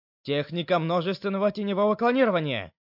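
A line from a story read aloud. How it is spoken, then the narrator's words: Shouting out. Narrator (Russian): Наруто выкрикнул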